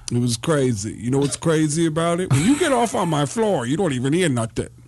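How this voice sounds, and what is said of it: Tracy Morgan impression. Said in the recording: “been doing a Tracy Morgan impression”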